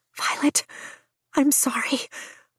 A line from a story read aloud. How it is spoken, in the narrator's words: Brennan whispers